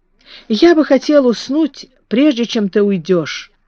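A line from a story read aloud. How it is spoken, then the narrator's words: Timid. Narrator (Russian): робко сказал он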